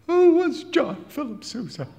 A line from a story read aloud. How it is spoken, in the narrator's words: he piped